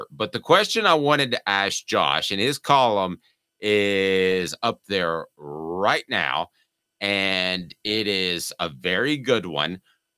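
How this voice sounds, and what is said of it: Sick, strained voice. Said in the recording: “apologize for my voice, ... because I've got the COVID ... fighting hurt”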